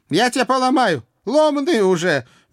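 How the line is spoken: Good-natured bark. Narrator (Russian): беззлобно рявкнула наша домохозяйка

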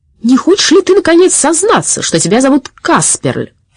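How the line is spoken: Shout. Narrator (Russian): крикнул он Сеппелю

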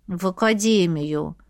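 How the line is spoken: Grumbling. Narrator (Russian): пробурчала я

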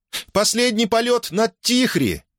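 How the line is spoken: Cheerful shout. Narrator (Russian): весело крикнула Мона Сенья

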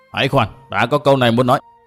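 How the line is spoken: Loud barked halt. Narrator (Vietnamese): Mụ xem rõ địa thế rồi liền nhảy về phía sau quát lớn

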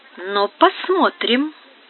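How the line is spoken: Old woman muttering. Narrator (Russian): пробормотала старуха

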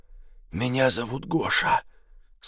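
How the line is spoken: Hoarse voice. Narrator (Russian): сказал он мне хриплым голосом

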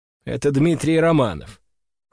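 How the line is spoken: Cold reply. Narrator (Russian): холодно отвечаю я

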